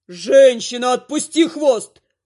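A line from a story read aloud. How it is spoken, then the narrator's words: Demon roaring. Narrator (Russian): взревел демон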